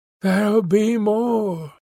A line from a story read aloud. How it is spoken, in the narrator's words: she sighed